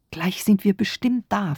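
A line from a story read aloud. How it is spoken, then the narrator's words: Whisper. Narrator (German): flüsterte ich Großpapa zu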